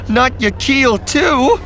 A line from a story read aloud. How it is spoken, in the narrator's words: She cried brokenly, almost whimpering